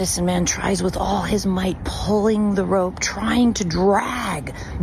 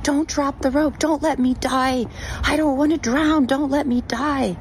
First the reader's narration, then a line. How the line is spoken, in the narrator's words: The man just screams back up